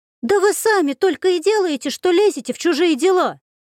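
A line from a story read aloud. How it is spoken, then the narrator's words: Desperate outcry. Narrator (Russian): выкрикнула Варенька с отчаянием в голосе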